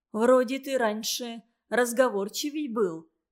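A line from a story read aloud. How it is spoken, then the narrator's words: Plain. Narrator (Russian): сказала бабка Катя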